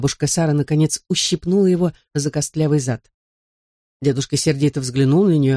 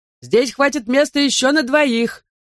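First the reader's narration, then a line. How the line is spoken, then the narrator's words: Shouting across church. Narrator (Russian): вновь закричал на всю церковь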